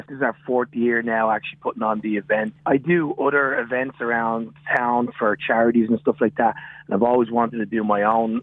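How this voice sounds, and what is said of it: Irish Dublin accent. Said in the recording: “I have a bit of an accent. So I come from Dublin, Ireland”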